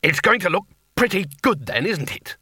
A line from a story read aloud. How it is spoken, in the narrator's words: said War testily